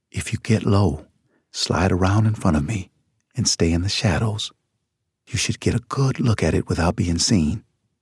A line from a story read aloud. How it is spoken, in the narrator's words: Pinky whispered